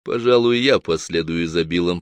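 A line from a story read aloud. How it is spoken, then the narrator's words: Deep bass voice. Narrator (Russian): пробасил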